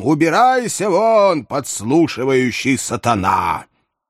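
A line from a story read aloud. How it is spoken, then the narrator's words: Thunderous shout. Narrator (Russian): господин Сваммер закричал громовым голосом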